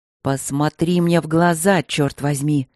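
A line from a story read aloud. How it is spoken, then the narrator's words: Near growl, furious. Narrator (Russian): Почти прорычала она ему в лицо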